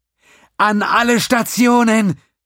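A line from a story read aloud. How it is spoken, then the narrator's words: Shouted. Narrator (German): schrie sie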